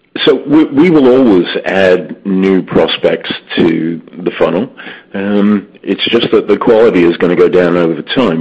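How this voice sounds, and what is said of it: Voice affected by illness. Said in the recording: “excuse my voice. Unfortunately, I contacted COVID over the weekend”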